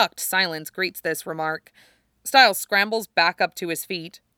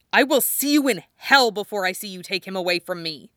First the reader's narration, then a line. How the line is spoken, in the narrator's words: lip curls back, baring his teeth, he snarls out